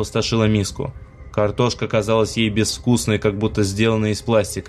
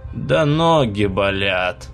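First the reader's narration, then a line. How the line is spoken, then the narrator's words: Rude, quick answer. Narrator (Russian): грубо ответила та, не задумываясь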